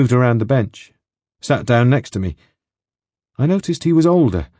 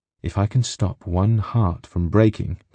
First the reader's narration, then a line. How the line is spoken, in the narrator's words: that poet said